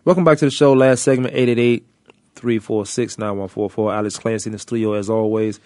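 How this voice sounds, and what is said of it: Voice roughened by a cold. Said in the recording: “is this sexy voice right? I have a cold. Somewhat of a cold.”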